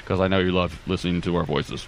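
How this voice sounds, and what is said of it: Put-on deep voice. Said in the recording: “That was my deep voice.”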